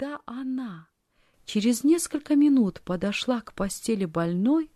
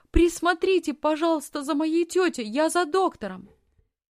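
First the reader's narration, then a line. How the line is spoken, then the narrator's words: Shouted. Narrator (Russian): крикнула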